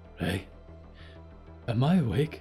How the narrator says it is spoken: Moth gasped

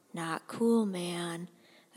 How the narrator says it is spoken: a guy's voice mutters quietly

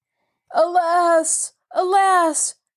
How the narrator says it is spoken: cried all the 20 together

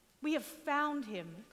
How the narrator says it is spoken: Philip exclaims

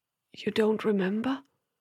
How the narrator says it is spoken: asked, his voice hardly more than a whisper

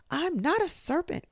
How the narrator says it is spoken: cried Alice

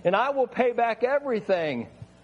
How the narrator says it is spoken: he begged

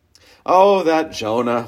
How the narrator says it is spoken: chuckle

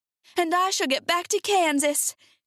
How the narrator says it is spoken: cried Dorothy

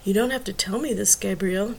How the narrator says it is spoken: Tracy whispered

